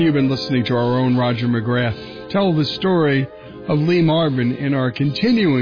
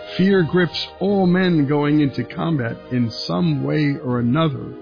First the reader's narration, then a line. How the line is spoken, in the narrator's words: he also said